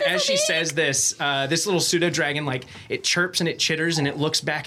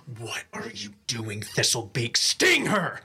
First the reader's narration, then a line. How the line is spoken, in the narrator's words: she growls out